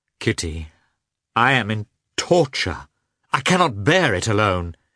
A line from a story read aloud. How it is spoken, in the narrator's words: he cried in a despairing tone